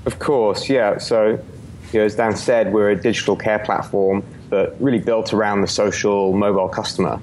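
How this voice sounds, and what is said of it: British accent. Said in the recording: “two British accents”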